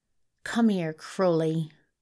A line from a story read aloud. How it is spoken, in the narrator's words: Beelzebub snarled